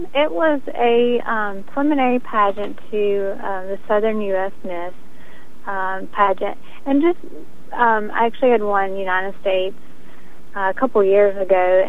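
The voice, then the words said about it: Slight regional accent. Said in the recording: “I do detect a little bit of an accent”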